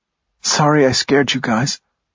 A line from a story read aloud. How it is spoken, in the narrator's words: she said in a hoarse voice